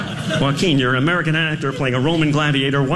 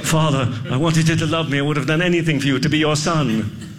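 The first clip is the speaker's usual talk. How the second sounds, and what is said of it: Put-on British accent, dramatic. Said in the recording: “Why are you doing a British accent? That's bad acting.”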